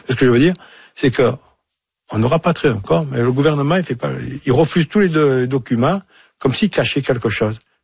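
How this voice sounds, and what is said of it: Speaks French with an accent. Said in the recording (French): “avec mon accent, je suis à Marseille”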